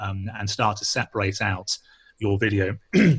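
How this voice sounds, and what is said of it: Usual voice. Nothing is said of it.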